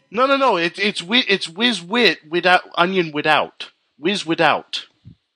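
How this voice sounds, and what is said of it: Put-on Philadelphia accent, inconsistent. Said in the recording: “That accent is all over the place. I'm detecting a hint of Brooklyn in there ... I detect just a hint of Brooklyn and a hint of Bronx”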